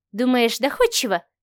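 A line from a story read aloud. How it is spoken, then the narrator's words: Doubtful mutter. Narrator (Russian): сомнением пробормотала Машка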